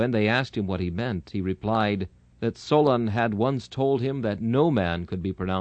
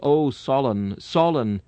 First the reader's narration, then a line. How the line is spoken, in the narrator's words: Dying, he exclaimed